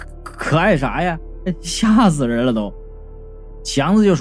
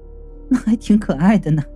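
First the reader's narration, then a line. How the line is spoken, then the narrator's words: Laughing. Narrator (Chinese): 云美笑道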